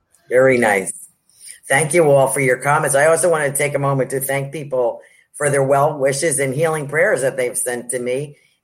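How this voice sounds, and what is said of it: Strained, failing voice. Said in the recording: “I keep losing my voice”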